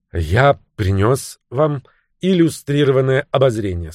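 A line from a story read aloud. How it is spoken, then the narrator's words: Plain. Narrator (Russian): сказал он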